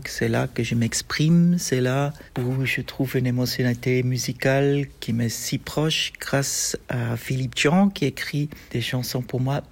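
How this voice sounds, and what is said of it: Non-native French accent. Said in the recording (French): “Vous entendez avec mon accent que le français n'est pas ma première langue”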